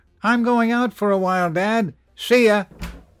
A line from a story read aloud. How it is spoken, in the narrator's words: yelled